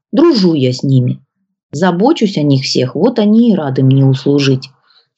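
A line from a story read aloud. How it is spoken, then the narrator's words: Sly old man's mumble. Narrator (Russian): Хитро улыбаясь в бороду, пробурчал дед Власий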